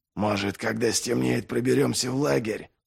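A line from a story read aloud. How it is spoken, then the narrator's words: Whispering, male. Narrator (Russian): зашептал он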